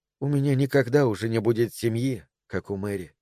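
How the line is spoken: Muttered. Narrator (Russian): пробормотала она

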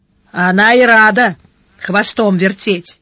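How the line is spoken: Gloomy. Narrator (Russian): мрачно сказал Шедарис

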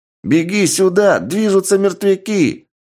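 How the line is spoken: Teenager yelling. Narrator (Russian): заорал старший подросток

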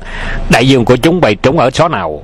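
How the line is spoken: Loud shout. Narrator (Vietnamese): Hoàng Dược Sư quát lớn

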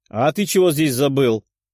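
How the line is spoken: Irritated snort. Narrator (Russian): фыркнула недовольная девушка

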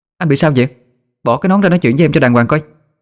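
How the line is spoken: Annoyed loud shout. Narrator (Vietnamese): Tôi bực bội, hét lớn

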